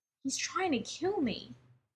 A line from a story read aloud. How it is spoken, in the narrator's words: choked after swallowing it, wiping his eyes on his sleeve